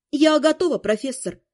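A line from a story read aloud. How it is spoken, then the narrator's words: Calm. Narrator (Russian): спокойно сообщила я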